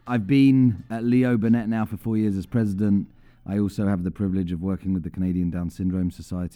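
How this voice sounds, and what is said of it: Non-Canadian foreign accent, slightly mixed. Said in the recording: “As you'll probably tell from the accent, I didn't originate from Canada, but I've been there 17 years, so maybe you won't know where my accent's from. It's a little wonky.”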